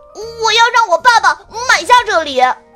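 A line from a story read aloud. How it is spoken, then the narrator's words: Boy shouting. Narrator (Chinese): 一个戴着近视眼镜的男孩喊道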